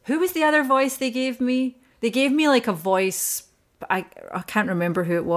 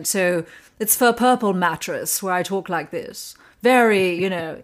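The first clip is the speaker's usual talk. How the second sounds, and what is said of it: Posh British accent. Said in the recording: “in a very British. They wanted like a posh British accent ... I was thinking like Elizabeth Hurley”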